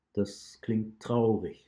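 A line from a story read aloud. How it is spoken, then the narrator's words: Plain. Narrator (German): sagte der Wolfsfänger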